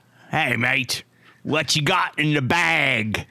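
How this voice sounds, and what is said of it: Attempted Cockney accent. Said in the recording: “we're going to do some Cockney ... Is that your best? ... That's about my best.”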